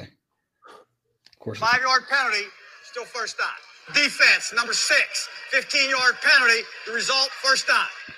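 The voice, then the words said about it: Philadelphia accent. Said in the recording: “I love the Philly accent. I believe this is Philly.”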